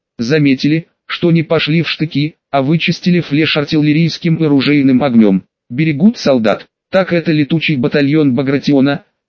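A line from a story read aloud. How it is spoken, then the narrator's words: Plain. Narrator (Russian): ответил майор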